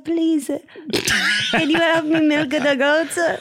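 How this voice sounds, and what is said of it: Put-on Albanian accent. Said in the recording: “why don't you do an Albanian accent? ... Okay, that's not bad. I mean, that's not bad.”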